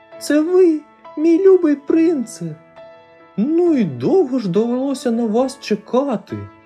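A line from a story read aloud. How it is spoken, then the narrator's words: Tender speech. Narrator (Ukrainian): Принцеса ніжно промовила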